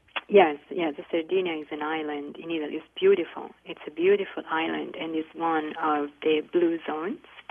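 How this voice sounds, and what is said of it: Charming Italian accent. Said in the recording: “You have a charming Italian accent. You are a native of Italy.”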